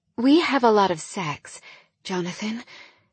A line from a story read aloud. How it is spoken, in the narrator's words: I gasped once I realized that I'd said that out loud